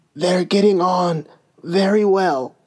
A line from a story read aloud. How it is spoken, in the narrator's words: he said in a choking voice